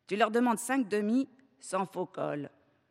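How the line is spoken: Curt. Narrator (French): dit Mérové d'un ton sec

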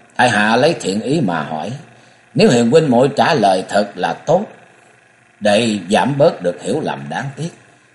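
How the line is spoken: Cold. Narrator (Vietnamese): Mã Phi Hồng lạnh lùng

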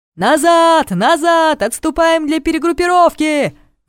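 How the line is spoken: Roaring. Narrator (Russian): взревел Зорш

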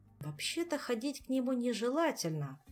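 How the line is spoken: Thoughtful remark. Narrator (Russian): задумчиво заметил Жак

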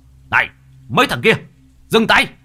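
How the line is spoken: Shout. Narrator (Vietnamese): Ông thầy Long quát

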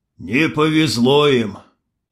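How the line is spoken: Sighing. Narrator (Russian): вздохнул султан

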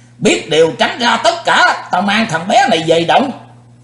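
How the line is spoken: Loud monstrous shout. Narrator (Vietnamese): Sư diện quái ma quát lớn

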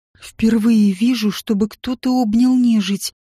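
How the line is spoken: Stunned breath. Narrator (Russian): потрясенно выдохнул Илай

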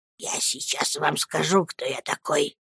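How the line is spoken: Whisper. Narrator (Russian): прошептал мистер Крикель

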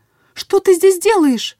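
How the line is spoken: Shouting. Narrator (Russian): закричала

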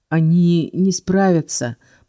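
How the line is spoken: Groaning. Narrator (Russian): простонал Келс

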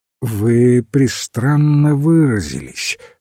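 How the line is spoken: Sleepy. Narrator (Russian): сказал он, сонно

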